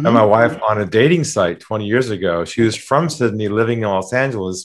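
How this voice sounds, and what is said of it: Californian American accent. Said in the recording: “I'm originally from California. You probably got the accent.”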